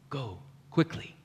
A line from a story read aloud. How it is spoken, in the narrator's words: he said softly